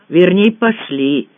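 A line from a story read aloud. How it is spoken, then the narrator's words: Snort. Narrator (Russian): хмыкнул Аркадий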